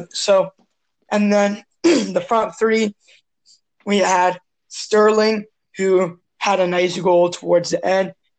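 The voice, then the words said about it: Strained, rough voice. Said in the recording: “sorry about my voice. It's like kind of messed up.”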